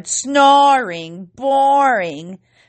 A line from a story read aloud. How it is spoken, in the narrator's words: hooted and hollered